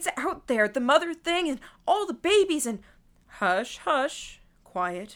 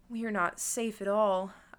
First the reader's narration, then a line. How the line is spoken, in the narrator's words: said, under my breath